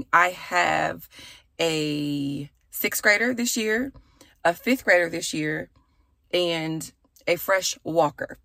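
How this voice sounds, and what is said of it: Slightly raspy voice. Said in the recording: “my voice is a bit raspy.”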